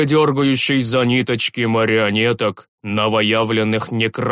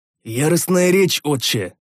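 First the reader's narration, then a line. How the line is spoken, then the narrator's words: Strained husky voice. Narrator (Russian): с трудом проглотив гномью настойку, просипел я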